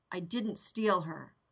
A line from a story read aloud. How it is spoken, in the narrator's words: the Sith snapped